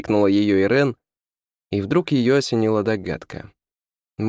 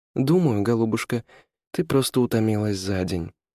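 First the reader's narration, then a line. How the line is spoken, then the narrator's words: Gentle, affectionate. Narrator (Russian): ласково сказала Ирен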